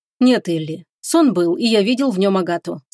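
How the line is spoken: Calm. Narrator (Russian): спокойно ответил он

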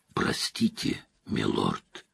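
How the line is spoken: Hoarse whisper. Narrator (Russian): хрипло прошептал

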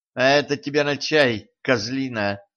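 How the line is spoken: Contemptuous snort. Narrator (Russian): Принцесса презрительно фыркнула

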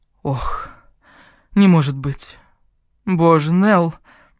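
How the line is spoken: Heavy sigh. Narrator (Russian): Подруга тяжело вздохнула

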